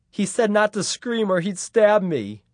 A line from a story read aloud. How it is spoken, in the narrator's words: she said, sobbing